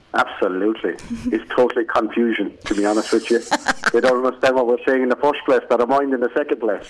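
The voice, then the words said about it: Mild Irish accent. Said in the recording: “oh, he's Irish ... Your accent is a lot, it's a lot less broad than it was”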